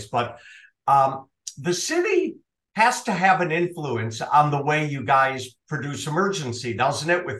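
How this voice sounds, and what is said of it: Minnesota accent. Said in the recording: “It sounds even better with your Minnesota accent.”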